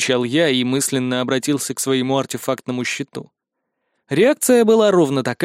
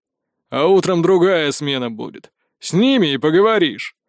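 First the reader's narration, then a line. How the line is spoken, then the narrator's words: Chuckling reply. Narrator (Russian): хохотнув, ответили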